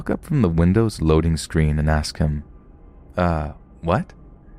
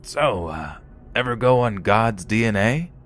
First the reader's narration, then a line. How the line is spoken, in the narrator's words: he starts asking me in a raspy voice